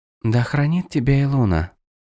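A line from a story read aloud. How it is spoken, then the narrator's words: Whispered blessing. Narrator (Russian): прошептала жрица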